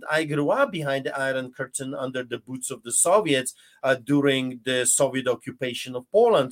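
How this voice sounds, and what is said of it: Polish accent in English. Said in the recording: “listen to my accent.”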